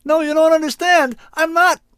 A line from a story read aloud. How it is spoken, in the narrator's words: my own voice, pitched high in panic, yelling